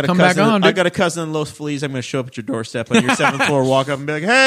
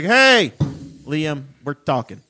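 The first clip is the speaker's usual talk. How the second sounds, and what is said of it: Put-on Chicago accent. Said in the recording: “Chicago accent.”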